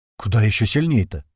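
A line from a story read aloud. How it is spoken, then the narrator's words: Frightened question. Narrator (Russian): испуганно спросил Слива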